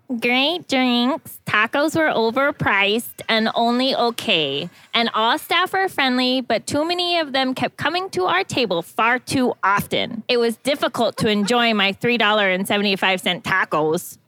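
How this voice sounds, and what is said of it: Reading in a funny voice. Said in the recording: “Bad Reviews Read in a Funny Voice... read some bad reviews in a funny voice”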